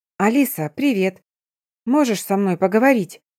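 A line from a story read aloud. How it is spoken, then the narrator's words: Mock-plaintive, smiling. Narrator (Russian): Жалобно попросила я подругу и улыбалась при этом до ушей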